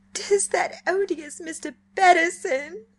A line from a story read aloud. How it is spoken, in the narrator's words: sobbed Diana